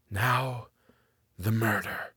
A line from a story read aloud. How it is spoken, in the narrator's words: came from Thorpe in a whisper that sounded as if it was outside the building and far away